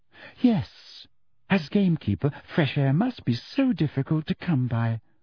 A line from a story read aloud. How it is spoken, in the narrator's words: said Umbridge sweetly